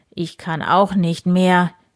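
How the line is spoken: Breathless groan. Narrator (German): stöhnte Graf Eberhard atemlos

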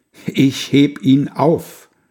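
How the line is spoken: Loud call. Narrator (German): er ruft's mit lauter Stimme

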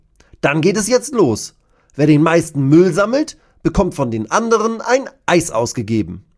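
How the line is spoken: Calling out. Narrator (German): ruft Bascho

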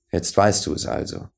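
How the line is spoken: Serious and gentle. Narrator (German): sagte der andere ernst und sanft

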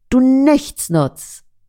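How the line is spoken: Angry boy shouting. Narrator (German): Verärgert schreit der Junge

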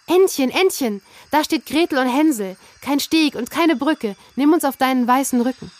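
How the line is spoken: Calling out. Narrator (German): rief sie

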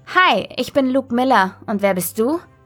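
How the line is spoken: Plain. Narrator (German): fragte

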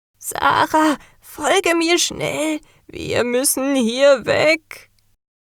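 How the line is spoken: Urgent call. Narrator (German): rief die Meisterin

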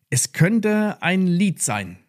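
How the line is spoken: Plain. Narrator (German): sagte sie

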